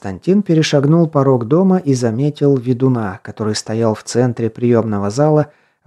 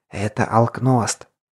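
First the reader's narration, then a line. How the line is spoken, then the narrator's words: Whispered. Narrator (Russian): прошептал подземник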